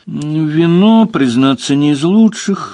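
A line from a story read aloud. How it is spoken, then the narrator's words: Sad. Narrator (Russian): грустно сказал Леверлин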